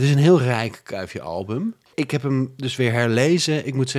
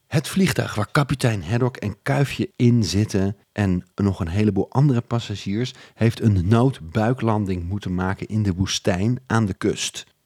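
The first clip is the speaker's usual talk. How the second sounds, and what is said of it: Dutch speaker imitating Flemish accent. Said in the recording (Dutch): “een Vlaming... een Nederlander die een Vlaming nadoet”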